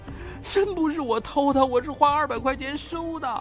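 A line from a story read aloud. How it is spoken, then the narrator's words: Anxious crying. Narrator (Chinese): 何静文急得哭了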